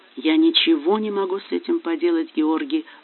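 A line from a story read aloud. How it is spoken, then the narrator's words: Even, level voice. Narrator (Russian): ровным голосом ответила она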